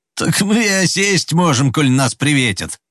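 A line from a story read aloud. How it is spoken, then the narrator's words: Loud laughter. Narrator (Russian): захохотал Пахом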